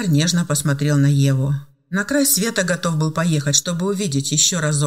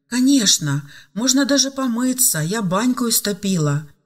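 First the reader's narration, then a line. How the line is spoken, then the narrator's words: Joyful. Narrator (Russian): радостно сообщила Любовь Сергеевна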